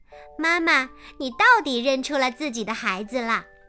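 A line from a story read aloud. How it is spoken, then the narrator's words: Laughing. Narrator (Chinese): 小白兔笑了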